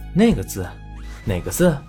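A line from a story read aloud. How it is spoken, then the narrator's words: Breathless. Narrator (Chinese): 圆圆喘着气道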